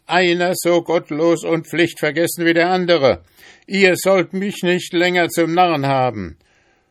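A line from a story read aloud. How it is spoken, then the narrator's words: Called out. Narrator (German): rief der Schneider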